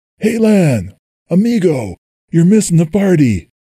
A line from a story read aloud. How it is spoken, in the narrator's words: Jack yelled over the throbbing music